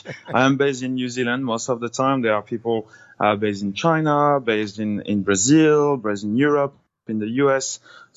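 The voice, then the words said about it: French accent. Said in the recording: “you sound French ... sounds very French.”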